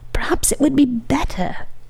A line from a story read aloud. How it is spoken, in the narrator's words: whispered one of the women behind the curtain